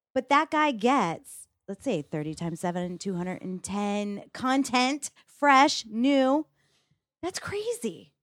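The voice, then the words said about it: Hyped infomercial-style sales pitch. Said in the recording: “I sound like an infomercial.”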